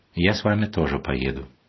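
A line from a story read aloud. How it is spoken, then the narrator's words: Calm. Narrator (Russian): отец Василий спокойно сказал мне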